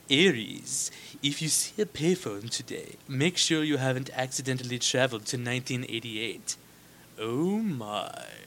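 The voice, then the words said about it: Imitates another person's voice. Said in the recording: “I don't know why I did that voice.”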